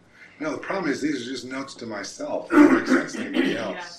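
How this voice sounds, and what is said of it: Hoarse voice, losing his voice. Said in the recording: “your voice sounds like... every time you yell, it kind of goes... He's losing his voice... I'm losing my voice”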